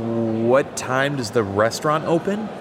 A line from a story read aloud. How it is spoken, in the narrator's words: Greenwald stuttered